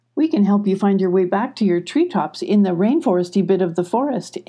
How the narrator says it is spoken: Emmy said cheerfully

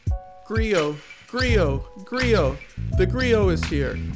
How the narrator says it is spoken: exclaimed a young girl

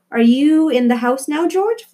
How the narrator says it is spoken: Flora's mother shouted from the kitchen

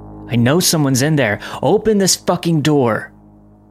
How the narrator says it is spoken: He was shouting

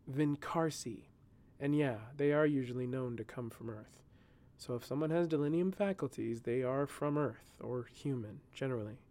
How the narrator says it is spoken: said in a low tone

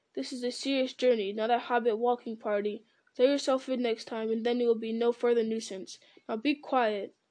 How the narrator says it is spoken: growled

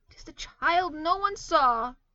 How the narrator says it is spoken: exclaimed the man

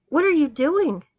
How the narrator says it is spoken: exclaimed

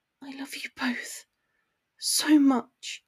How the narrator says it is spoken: she breathed, but her voice was drowned out by the television

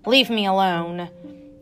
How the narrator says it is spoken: snarled

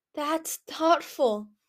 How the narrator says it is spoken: Listener whispered

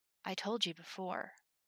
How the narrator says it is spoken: Levi whispered, breath tickling the shelf of her ear

